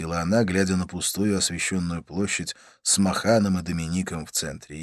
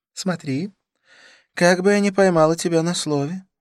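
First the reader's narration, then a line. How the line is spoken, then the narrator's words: Laughing. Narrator (Russian): рассмеялась она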